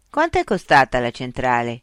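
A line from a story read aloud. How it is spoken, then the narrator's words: Curt question. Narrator (Italian): chiese Mitch seccamente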